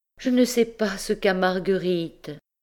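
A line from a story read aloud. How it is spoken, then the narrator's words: Sighing. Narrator (French): soupirait Madame Lecotel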